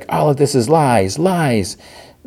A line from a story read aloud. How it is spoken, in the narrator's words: she's like yelling